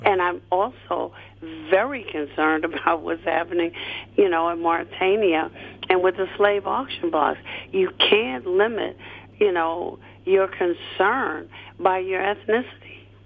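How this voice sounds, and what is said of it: Voice affected by a cold. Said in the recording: “Forgive my voice. ... I'm trying my best to get away from a head cold.”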